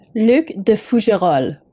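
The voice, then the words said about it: Put-on French accent. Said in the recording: “she can fake this beautiful French accent”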